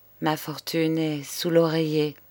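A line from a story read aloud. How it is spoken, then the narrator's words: Murmured. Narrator (French): murmura-t-il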